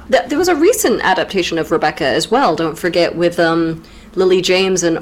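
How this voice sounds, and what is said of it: Usual voice. Nothing is said of it.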